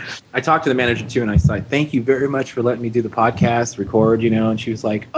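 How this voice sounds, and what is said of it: Usual voice. Nothing is said of it.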